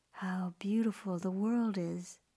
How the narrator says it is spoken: breathed, entranced

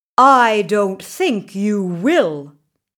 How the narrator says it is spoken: he said

